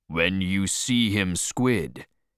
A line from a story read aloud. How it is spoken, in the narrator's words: he said